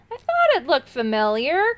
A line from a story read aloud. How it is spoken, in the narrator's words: cried the Rusty Knight happily